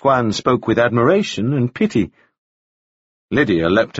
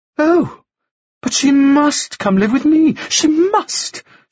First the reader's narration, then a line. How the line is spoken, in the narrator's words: cried, speaking as if she'd been impressing this notion upon for some time, instead of having only just proposed it